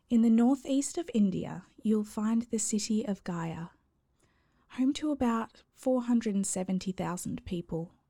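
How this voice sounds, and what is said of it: Australian accent. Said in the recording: “go easy on my awful Aussie accent”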